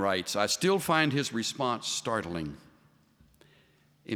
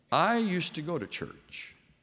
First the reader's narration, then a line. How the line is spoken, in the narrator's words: said the dean